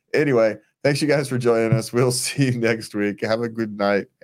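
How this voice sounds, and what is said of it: Usual voice. Nothing is said of it.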